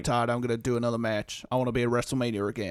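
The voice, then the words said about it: Poor imitation of another person's voice. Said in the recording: “That's my terrible Undertaker impression”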